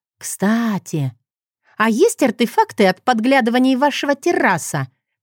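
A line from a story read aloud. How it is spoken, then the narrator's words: Innocent tone. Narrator (Russian): поинтересовалась невинным тоном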